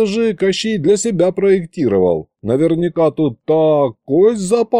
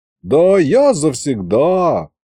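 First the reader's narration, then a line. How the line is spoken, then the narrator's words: Cautious drawl. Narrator (Russian): Осторожно протянул я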